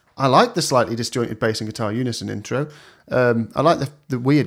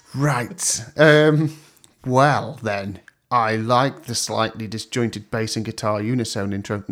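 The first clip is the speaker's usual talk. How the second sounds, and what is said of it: Speaking in a weird voice. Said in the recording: “I'll stop saying it in a weird voice.”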